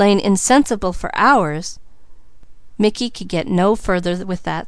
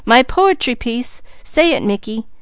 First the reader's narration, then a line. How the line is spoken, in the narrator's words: she cried